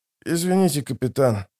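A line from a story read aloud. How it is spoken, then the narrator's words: Hoarse rasp. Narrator (Russian): прохрипел он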